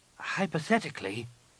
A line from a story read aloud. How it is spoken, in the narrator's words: Nenyim said hesitantly